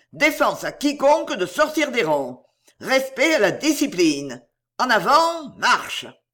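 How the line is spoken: Yelled. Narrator (French): hurla-t-il

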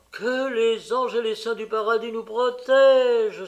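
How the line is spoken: Exclaimed. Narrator (French): s'écria Georges

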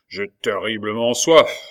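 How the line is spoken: Driver grumbling. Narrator (French): grommela l'automédon

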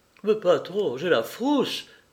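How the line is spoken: Stammer. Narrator (French): bégaya Gilbert

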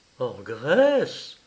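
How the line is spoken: Exclaimed. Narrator (French): s'écria Madame de Pienne

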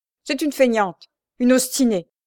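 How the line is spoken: Woman shouting. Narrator (French): cria-t-elle

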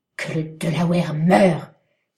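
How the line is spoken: Thundering shout. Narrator (French): s'écria Magua d'une voix de tonnerre

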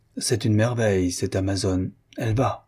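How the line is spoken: Earnest tone. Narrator (French): Il dit, d'un ton pénétré

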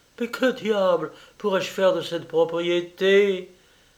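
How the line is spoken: Exclaimed. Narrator (French): s'écria-t-elle

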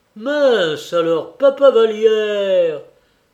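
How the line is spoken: Exclaimed. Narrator (French): s'écria Réglisse

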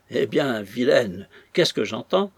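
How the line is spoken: Mocking exclamation. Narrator (French): s'écria d'un ton de raillerie adressé à sa chère enfant

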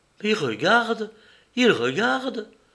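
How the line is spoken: Woman exclaiming. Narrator (French): s'écria une femme

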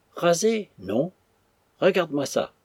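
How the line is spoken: Exclaiming. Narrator (French): s'écria Lagné

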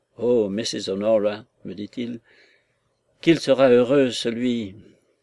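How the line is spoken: Sighing. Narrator (French): Et il soupira

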